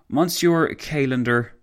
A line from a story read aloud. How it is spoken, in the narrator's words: Foch sighed